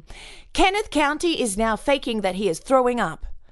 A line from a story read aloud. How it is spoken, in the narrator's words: She could be heard saying loudly